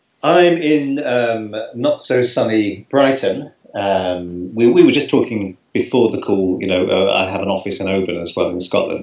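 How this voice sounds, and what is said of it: English accent. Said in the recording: “a lovely English accent there”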